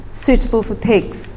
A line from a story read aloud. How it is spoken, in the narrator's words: says